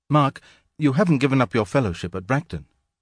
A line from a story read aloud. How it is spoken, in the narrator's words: she said in a sharp, frightened voice